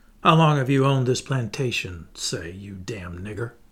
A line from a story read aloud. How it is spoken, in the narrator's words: he inquired, with a malicious sneer